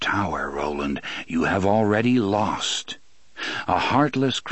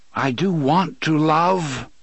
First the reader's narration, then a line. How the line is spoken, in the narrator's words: he cried